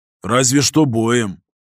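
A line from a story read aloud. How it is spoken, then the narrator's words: Grumbling. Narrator (Russian): проворчал я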